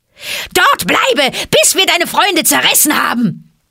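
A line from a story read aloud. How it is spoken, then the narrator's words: Monkeys roaring. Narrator (German): brüllten die Affen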